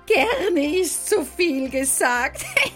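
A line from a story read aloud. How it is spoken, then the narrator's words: Giggling. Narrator (German): kicherte Laika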